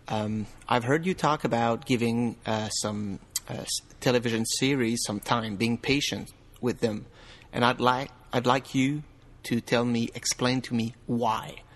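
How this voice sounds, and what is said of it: French Canadian accent. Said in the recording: “Talking to you straight from French Canada, which explained my outrageous accent, or maybe I should say my hashtag tremendous accent.”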